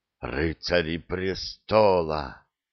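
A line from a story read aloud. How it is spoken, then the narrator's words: Stunned exhale. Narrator (Russian): потрясенно выдохнул Геральт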